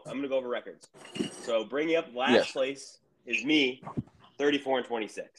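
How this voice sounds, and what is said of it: Sick, rough voice. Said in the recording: “I'm also sick, so my voice ... sorry for my voice.”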